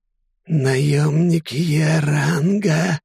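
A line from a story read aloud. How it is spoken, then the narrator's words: Cowering hiss. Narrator (Russian): скукоживаясь, прошипел он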